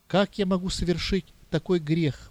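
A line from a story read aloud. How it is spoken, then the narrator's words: Exclaiming. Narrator (Russian): воскликнул Арсений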